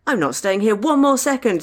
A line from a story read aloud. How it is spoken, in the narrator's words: Deanna shrieked